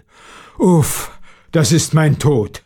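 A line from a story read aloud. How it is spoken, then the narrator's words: Groaned. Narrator (German): stöhnte der Schlossherr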